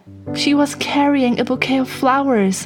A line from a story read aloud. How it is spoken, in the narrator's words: cried as she came running